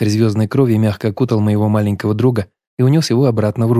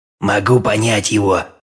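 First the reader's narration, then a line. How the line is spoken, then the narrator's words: Grumbling. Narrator (Russian): проворчал поющий в песках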